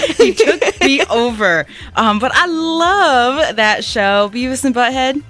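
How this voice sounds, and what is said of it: Usual voice. Nothing is said of it.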